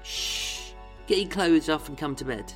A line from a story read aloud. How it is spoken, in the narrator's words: Vera cooed